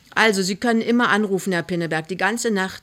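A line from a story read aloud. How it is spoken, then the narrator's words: Plain. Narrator (German): sagt die Oberschwester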